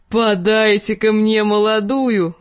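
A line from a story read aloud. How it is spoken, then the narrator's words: Roaring. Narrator (Russian): взревел он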